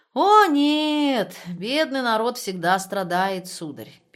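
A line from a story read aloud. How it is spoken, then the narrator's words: Sad. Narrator (Russian): печально сказал Хайзенхофер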